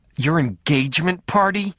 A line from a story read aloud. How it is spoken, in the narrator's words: she said, and then snarled